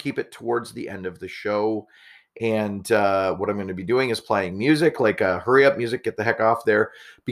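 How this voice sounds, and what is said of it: Weak, strained, nearly lost voice. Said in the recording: “If it sounds like my voice is crappy. That's because it is. I barely had any voice. ... why I lost my voice”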